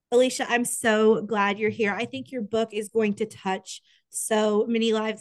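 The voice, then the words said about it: Sick, congested-sounding voice. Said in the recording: “I am sick right now and I can hear it in my voice. If you are a longtime listener, you probably can hear it in my voice”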